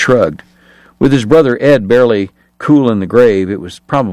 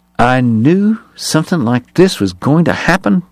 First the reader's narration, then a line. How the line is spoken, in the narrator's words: Bat muttered